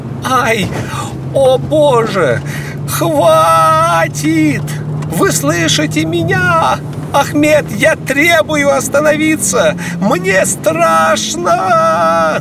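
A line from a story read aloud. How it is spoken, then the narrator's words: Girl screaming near hysteria. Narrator (Russian): На грани истерики закричала девушка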